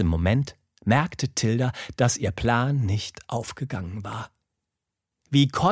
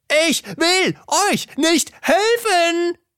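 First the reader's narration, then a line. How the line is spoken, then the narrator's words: Barked. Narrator (German): bellte Arthur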